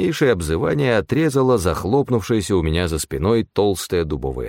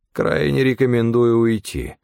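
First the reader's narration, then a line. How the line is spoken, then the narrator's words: Gloomy. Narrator (Russian): мрачно сказал Стефан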